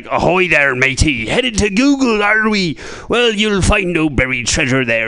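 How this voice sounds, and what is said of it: Put-on pirate accent. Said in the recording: “I love doing a pirate accent”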